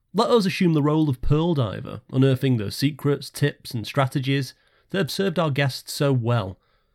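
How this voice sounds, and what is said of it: Formal read-aloud voice. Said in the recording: “talking in my reading voice”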